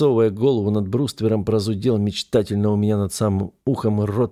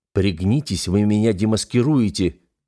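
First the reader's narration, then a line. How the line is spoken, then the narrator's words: Hissing. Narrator (Russian): прошипел я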